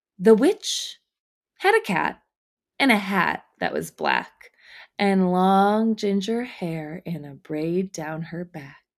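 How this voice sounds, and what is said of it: Witch character voice. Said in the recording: “witch voice”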